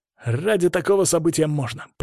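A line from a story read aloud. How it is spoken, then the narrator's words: Grumbled. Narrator (Russian): пробурчал он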